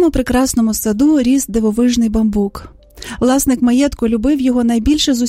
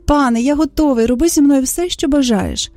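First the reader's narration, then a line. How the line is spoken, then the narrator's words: Joyful reply. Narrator (Ukrainian): Красень бамбук перечував, що настала довгождана мить, і радісно відповів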